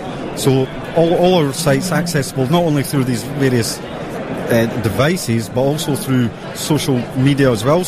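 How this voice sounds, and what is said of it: Scottish accent. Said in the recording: “I can hear through your New York accent that it sounds like your company is based in Scotland ... That was a little bit of sarcasm.”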